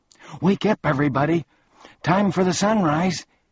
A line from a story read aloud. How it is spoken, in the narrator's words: he shouted with relief